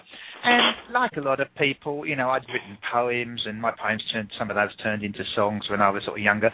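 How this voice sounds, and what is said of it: English accent. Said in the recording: “I'm English ... a lot of Americans can't tell the difference between Australian and English accent”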